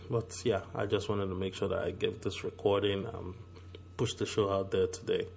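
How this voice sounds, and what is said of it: Low, strained sore-throat voice. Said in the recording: “sorry I'm talking a little bit low. ... I have a bit of a sore throat, so my voice is not where it's supposed to be.”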